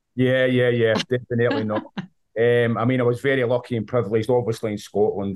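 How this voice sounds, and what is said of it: Scottish accent. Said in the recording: “you can tell with my accent, I'm from Scotland.”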